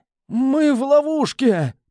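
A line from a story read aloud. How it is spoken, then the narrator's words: Panicked rasp. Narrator (Russian): прохрипел Густаво, панически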